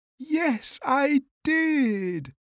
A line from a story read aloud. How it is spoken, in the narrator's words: cried Little Bear